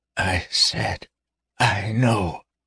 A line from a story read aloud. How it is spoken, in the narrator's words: she rasped weakly